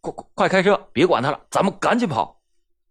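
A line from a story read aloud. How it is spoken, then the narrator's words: Panicked stammering. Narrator (Chinese): 金万树也是惊慌失措，结结巴巴的说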